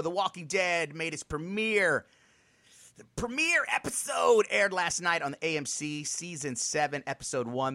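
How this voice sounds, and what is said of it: Excited, upbeat delivery. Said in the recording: “why does he sound so excited right now?”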